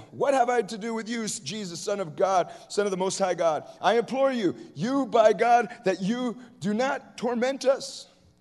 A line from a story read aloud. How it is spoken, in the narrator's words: cried out with a loud voice and said